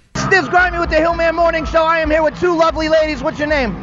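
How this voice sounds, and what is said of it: Yelling, loud voice. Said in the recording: “people asking why I'm yelling, you got to remember, it is loud AF ... you were yelling also. You're a yeller.”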